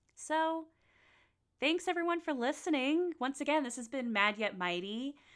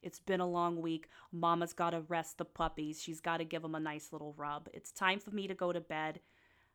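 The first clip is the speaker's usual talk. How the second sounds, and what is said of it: Put-on mixed Jersey accent. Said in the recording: “Don't know why I'm doing a mixture of a Jersey accent.”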